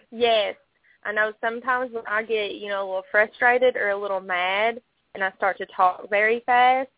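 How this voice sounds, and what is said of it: Thick Eastern Kentucky Southern accent. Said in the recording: “that sweet accent ... I'm very proud of where I come from in Eastern Kentucky, so sometimes my accent can be a little thick”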